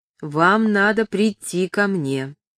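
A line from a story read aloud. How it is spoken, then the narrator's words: Even voice. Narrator (Russian): отвечала она ровным голосом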